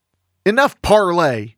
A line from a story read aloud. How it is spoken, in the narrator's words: shouted Calamity Jane